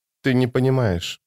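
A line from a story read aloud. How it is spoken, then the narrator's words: Whisper. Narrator (Russian): наконец прошептала она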